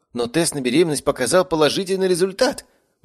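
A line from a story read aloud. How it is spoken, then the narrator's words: Exclaiming countess. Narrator (Russian): воскликнула графиня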